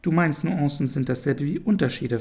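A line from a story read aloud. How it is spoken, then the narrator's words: Plain question. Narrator (German): fragte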